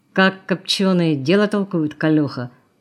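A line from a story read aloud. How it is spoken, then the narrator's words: Grumbled. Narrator (Russian): буркнул Волк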